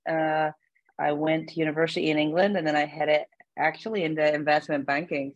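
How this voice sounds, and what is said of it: Northern Irish Belfast accent. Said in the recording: “I'm born and bred in Belfast ... you can probably hear it in my accent”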